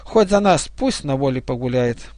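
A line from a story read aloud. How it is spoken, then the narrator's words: Girl speaking with a sigh. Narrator (Russian): эта девушка вздохнула и сказала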